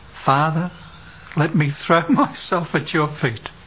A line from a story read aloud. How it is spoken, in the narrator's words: The son whispered, sobbing